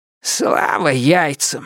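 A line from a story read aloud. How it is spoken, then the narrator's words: Relieved exhale. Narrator (Russian): с облегчением выдохнул сокол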